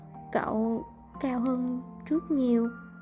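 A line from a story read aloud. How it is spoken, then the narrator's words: Stammering flattery. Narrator (Vietnamese): Đỗ Nhược ấp úng nịnh nọt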